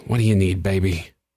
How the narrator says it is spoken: He sighed

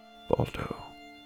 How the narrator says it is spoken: he whispered

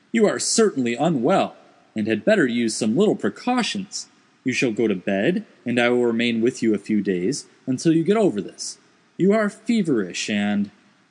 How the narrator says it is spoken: I cried, interrupting him

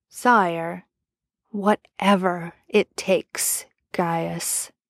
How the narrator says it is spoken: Arthur said quietly, forcefully

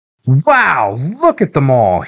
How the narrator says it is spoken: he said excitedly

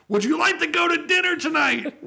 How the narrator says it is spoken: We yell over the noisy roar of the engines

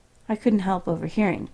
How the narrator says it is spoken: Mitchell asked calmly

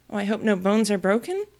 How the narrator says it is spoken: She was quite frightened this time, and said in an anxious tone

